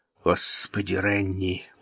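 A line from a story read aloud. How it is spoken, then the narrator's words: Muttered. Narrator (Russian): пробормотал он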